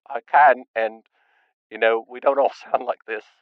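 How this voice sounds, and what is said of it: Very weird accent. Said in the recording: “I have a very weird accent”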